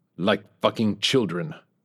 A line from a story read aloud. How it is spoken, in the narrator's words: Petrov snarled